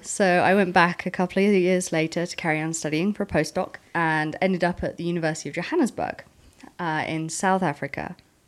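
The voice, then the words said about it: South African accent, slight New Zealand. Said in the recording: “that's where most of my accent comes from. And then a little bit New Zealand from my PhD ... and also Britain”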